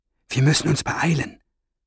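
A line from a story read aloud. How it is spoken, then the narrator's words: Whispered. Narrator (German): flüsterte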